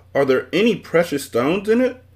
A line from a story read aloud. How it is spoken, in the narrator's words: asked Milo excitedly